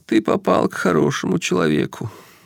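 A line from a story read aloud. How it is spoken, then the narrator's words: Sobbing through tears. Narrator (Russian): всхлипнул он, отвлекаясь от собственного плача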